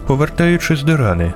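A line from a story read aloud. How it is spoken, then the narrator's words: Calm. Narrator (Ukrainian): продовжувала спокійно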